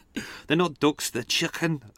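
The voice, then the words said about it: Poorly attempted put-on accent. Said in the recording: “That's probably the worst accent ever, but I tried my best.”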